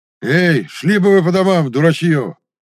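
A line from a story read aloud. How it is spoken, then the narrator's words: Shouted by a soldier. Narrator (Russian): крикнул какой-то солдат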